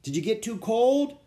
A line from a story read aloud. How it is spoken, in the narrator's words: Dad called out